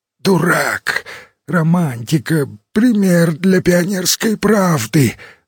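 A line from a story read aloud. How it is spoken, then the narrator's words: Chief of staff wheezing. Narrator (Russian): засипел начальник штаба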